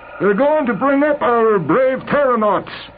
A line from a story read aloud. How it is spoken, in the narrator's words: Claybaugh shouted